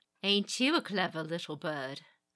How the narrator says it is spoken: the woman chuckled, her accent thick with the islands of silk and spice

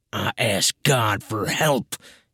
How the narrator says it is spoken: he growled

